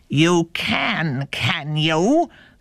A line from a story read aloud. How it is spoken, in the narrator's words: snarled the wolf